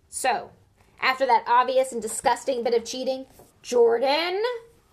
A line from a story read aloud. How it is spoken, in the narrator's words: growled Professor McGonagall